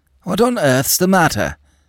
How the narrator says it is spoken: exclaimed the doctor

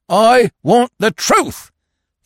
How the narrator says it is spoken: thundered Falmouth

